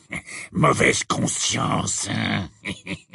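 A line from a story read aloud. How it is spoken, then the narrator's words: Hissing voice. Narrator (French): dit d'une voix sifflante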